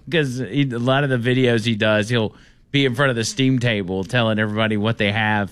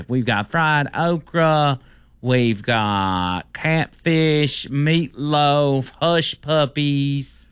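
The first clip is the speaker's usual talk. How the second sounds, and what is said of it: Impersonation of a man listing food. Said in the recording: “It's a pretty good impersonation.”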